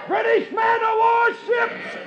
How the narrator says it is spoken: The shout

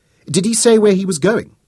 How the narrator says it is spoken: Ruby snapped at her, feeling the sickening slide of disappointment within her

